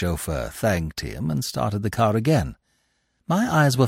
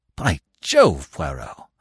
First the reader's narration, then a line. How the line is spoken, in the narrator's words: I exclaimed